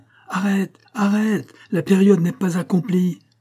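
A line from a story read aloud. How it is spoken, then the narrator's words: Shouting loudly. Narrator (French): tout en vociférant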